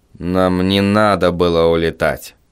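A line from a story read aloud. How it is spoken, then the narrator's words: Grumbled. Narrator (Russian): проворчал он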